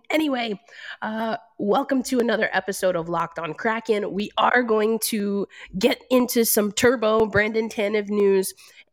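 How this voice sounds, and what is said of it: Congested voice from a cold. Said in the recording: “As you can probably hear in my voice, I'm dealing with a little bit of a cold”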